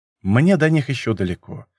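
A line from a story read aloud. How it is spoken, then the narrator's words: Sighing. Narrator (Russian): вздохнул я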